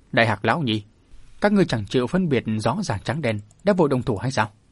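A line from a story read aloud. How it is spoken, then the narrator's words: Sneering. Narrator (Vietnamese): Cửu lão lão cười khẩy nói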